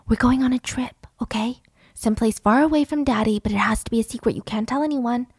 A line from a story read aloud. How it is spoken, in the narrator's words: her mom whispering